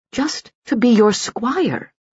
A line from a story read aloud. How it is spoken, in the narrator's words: pleaded Suli